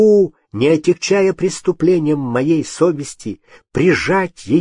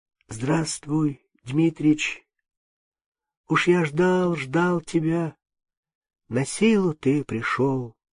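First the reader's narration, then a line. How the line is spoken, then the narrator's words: Weak tender voice. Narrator (Russian): ласково произнес слабым голосом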